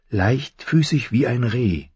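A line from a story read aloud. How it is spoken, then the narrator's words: Whisper. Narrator (German): flüsterte sie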